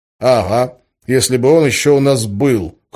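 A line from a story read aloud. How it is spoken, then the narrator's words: Wry snort. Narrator (Russian): хмыкнул я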